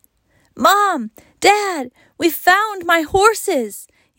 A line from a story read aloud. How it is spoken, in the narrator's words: yelled Wayne when they returned